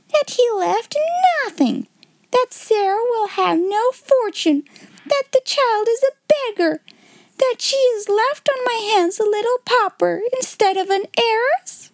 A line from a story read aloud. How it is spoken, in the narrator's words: she cried out